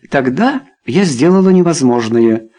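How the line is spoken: Cheerful. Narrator (Russian): весело ответила Люсинда

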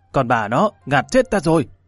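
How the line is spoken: Breathless loud shout. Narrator (Vietnamese): sắc mặt hắn tái nhợt, mãi lâu sau mới hít một hơi thật dài, hét lớn một tiếng

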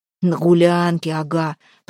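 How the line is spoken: Strange hoarse rasp. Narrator (Russian): прохрипел Демка, сам не узнавая своего голоса

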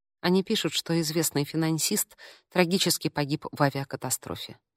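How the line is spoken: Quiet speech. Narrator (Russian): тихо произнесла она

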